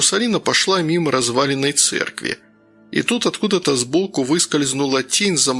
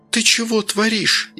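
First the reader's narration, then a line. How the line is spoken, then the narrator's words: Frightened woman's whisper. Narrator (Russian): испуганно прошептала дамочка с начесом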